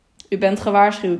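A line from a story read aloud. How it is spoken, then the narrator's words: Plain. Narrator (Dutch): zei Thierry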